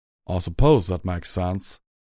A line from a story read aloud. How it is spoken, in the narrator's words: Calamity chuckled